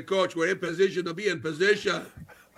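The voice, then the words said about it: Put-on Dominican accent. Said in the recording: “That's my that was my Dominican dialect”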